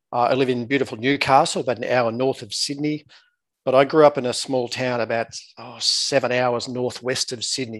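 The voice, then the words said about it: Australian accent. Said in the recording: “I'm obviously Australian by my accent.”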